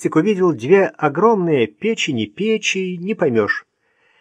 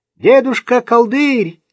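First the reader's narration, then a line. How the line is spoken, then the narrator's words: Shouting with all might. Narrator (Russian): закричал изо всех сил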